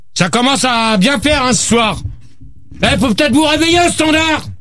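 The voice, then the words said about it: Shouting. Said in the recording (French): “Arrête de crier, toi!... arrête de crier”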